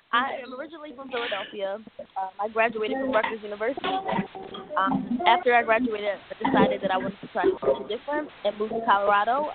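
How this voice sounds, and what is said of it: Sore, strained throat voice. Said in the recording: “Excuse my voice ... I've been helping myself get over some strep throat”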